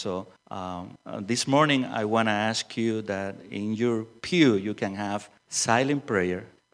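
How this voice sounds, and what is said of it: Strong non-native accent. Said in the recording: “my strong accent”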